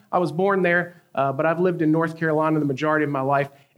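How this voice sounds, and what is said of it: Southern US accent. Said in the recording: “I sound like a thing of cornbread. I'm from the South, okay? From the South, North Carolina.”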